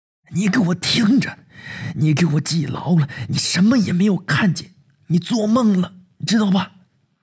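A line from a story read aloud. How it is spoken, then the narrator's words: Suppressed furious growl. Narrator (Chinese): 狠狠的 压着嗓子对我怒吼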